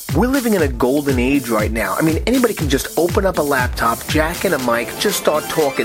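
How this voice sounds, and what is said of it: Fast talker, New York accent. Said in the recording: “I talk fast, I have a New York accent”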